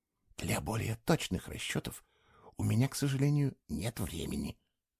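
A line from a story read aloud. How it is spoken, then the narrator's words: Hissed. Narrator (Russian): прошипел Фло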